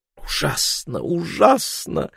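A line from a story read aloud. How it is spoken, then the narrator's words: Muttering. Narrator (Russian): бормотал Королевский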